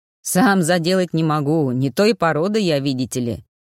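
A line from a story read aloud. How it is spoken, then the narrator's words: Booming chuckle. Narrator (Russian): Кравин гулко хохотнул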